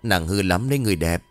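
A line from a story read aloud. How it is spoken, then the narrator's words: Excited laughing. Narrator (Vietnamese): Lão Tạo càng cảm thấy kích thích cho nên bật cười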